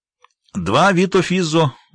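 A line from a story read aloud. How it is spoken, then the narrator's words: Exclaimed. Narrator (Russian): воскликнул официант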